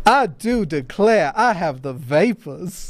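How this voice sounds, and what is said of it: Exaggerated Southern Belle voice. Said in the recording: “I'd probably go extreme with it ... It'd be like a Southern Belle kind of thing ... my Lindsey Graham impression”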